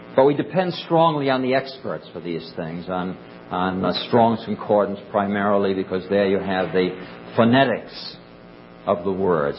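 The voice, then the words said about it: Rhode Island accent. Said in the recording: “it's just my accent. From Rhode Island, everybody talks this way.”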